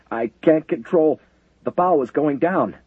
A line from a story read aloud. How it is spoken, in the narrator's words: the sailor manning the diving plane said in a panic-choked voice